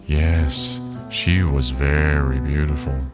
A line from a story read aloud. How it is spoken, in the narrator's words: the old woman said sadly